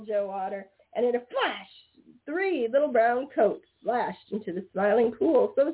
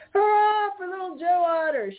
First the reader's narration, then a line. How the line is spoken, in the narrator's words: shouted Blacky the Crow